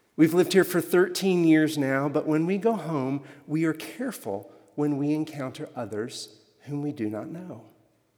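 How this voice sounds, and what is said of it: Slight Alabama Southern accent. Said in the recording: “My husband and I are from Alabama. You may have picked up a little bit of an accent.”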